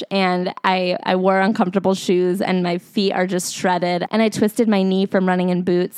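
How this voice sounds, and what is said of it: Sounds like she has a cold. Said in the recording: “I have a cold”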